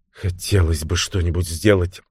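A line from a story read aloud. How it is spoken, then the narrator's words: Whispered. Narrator (Russian): шепнула она Лорен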